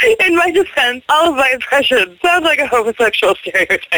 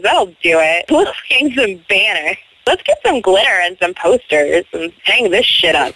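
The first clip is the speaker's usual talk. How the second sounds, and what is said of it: Exaggerated soccer mom character voice. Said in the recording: “My soccer mom voice sounds like a homosexual stereotype”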